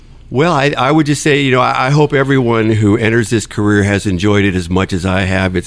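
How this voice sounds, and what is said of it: Usual voice. Nothing is said of it.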